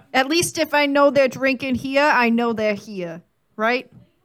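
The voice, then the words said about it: Poorly done put-on accent. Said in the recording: “That was a terrible accent, but I did my best.”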